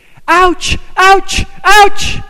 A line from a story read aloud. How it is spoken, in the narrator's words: He was screaming